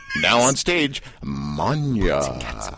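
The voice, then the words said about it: Strip club DJ announcer voice. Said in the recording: “I sound like a DJ at a strip club.”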